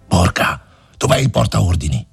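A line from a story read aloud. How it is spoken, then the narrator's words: Officer shouting. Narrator (Italian): La voce dell'ufficiale gridò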